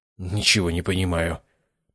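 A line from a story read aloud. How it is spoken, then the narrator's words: Mumbled. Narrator (Russian): пробормотал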